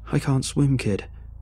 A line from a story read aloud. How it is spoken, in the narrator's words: said desperately